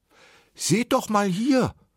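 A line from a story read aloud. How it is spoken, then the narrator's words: Calling out. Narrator (German): rief Rotkäppchen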